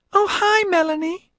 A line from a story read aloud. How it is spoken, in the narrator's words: she squeaked